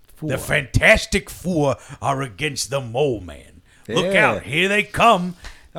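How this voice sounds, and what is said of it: Imitates another person's voice. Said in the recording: “I was wondering why this one sounded so much better than the other one ... My Bill Reed does not sound like Bill Cosby at all.”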